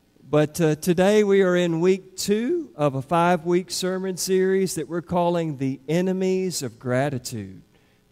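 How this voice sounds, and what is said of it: Strained, worn-out voice. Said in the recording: “I'm hoping my voice is going to hold out. I may have been screaming at a ball game last night.”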